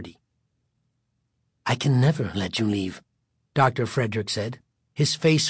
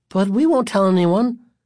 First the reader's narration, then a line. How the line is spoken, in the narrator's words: Greg said, his voice rising until the words became a plea